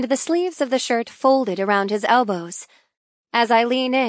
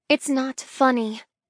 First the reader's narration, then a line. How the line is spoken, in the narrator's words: I mumble